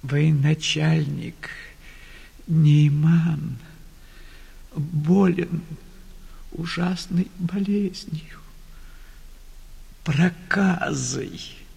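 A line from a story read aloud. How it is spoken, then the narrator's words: Tearful woman's answer. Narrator (Russian): ответила сквозь слезы бедная женщина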